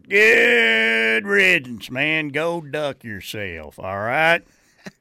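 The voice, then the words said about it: Redneck Oklahoma fan voice. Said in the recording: “my impression of a redneck Oklahoma fan way too involved with kids and recruiting”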